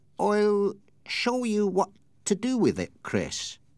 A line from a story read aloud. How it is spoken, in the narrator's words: said, very slowly in a queer, jerky way, as if with some inner excitement